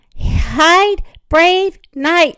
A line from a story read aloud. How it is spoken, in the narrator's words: she said